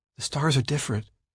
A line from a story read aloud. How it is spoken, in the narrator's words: she muttered